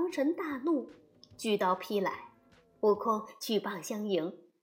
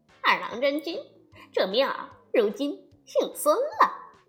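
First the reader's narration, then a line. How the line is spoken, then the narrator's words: Chuckling. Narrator (Chinese): 悟空嘿嘿笑道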